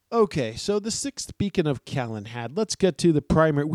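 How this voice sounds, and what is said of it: Usual voice. Nothing is said of it.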